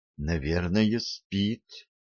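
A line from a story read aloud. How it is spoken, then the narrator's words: Barely audible reply. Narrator (Russian): еле слышно ответила Лорелли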